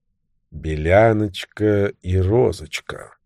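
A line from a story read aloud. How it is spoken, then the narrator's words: Muttered. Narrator (Russian): пробормотал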